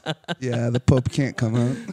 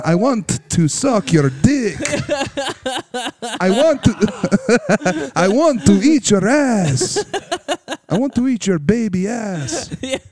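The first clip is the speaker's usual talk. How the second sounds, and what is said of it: Generic European accent. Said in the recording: “Here's a generic European accent.”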